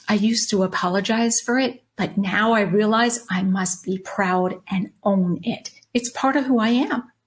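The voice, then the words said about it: Long Island New York accent. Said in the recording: “born and raised on Long Island, New York. Yes, that's the accent you hear.”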